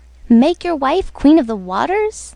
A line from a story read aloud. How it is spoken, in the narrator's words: exclaimed the goldfish